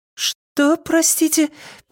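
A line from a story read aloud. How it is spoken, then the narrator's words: Squeaked, woman. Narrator (Russian): пискнула женщина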